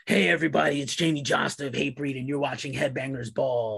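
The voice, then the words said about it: Imitates another person's voice. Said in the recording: “that's my imitation to Jamie”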